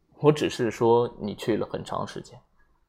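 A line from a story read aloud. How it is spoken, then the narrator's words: Flat, indifferent. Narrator (Chinese): 阿姆斯特朗医生则淡淡的说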